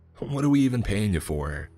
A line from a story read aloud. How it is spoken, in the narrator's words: he continues shouting